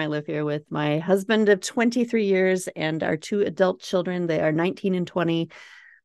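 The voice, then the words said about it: Minnesota accent. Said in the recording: “If you can't tell from my accent, Minnesota, that was real Minnesota”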